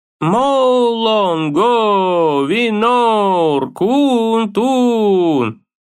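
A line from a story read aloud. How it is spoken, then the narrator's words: Drawn-out. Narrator (Russian): протянул Мимир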